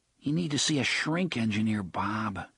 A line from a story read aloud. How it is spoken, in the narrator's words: Jake murmured